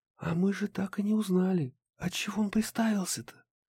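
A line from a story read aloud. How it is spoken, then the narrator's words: Whisper. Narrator (Russian): шепнула Харми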